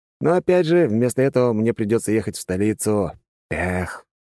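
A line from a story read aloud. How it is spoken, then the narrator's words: Sighing. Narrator (Russian): вздохнул я, ровно так же, как и в самом начале разговора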